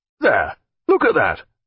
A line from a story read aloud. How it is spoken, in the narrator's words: cried Mr